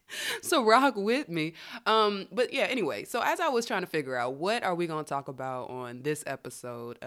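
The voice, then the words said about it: Slightly raspy voice. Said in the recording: “My voice is a little bit on rasp today.”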